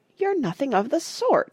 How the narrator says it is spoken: said Peter indignantly

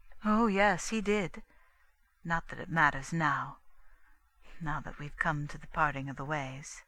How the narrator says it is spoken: went on quickly

